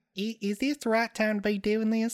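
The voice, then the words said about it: Thick Southern accent, high voice. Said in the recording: “I had a really thick southern accent... A high voice... Yeah, I had a high voice.”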